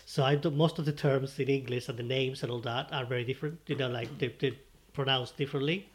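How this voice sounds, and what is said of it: Spanish accent in English. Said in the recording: “I'm from Spain... I noticed an accent.”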